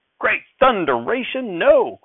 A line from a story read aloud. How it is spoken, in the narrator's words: Grandfather shouted